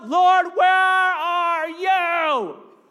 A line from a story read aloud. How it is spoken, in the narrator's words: My behind would have been yelling out